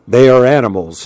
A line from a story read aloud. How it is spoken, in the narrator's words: he said